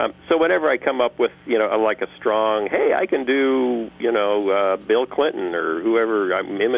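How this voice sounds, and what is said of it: Usual voice. Nothing is said of it.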